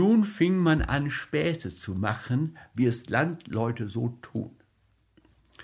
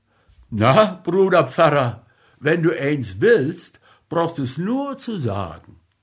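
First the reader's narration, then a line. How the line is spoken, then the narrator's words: Father calling out. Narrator (German): Der Vater rief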